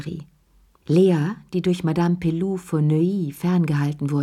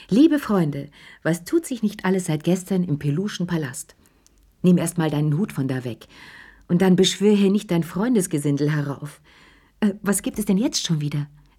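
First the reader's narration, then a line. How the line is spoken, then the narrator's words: Scolding while laughing. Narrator (German): Sie schimpfte und lachte schon im Voraus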